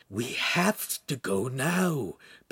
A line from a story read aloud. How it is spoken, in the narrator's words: Pan whispered desperately